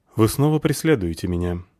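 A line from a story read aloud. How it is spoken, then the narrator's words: Deliberately calm. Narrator (Russian): сказал нарочито спокойным тоном лодочник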